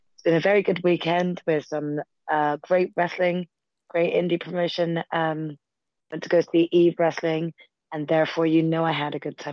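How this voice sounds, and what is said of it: Hoarse, strained voice. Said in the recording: “I've lost my voice a little bit, so I will be trying to speak as loud as I can”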